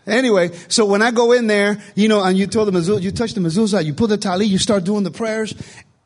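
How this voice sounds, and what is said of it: Fast speech, Puerto Rican accent. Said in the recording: “I'm Puerto Rican. I speak fast. I have an accent.”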